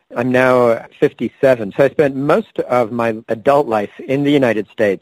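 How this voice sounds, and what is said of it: English accent, not American. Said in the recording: “your accent is not Berkeley-esque”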